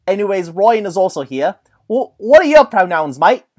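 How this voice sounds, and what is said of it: Put-on Cockney-style accent. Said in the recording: “the longer I use an accent, the more it strays into something else. So I'm some sort of Cockney werewolf type being.”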